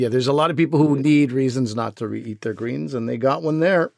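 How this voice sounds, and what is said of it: Usual voice. Nothing is said of it.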